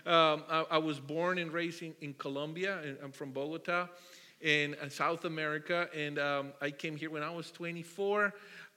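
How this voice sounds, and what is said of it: Colombian Spanish accent. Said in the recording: “For my accent, you can guess I'm not from here”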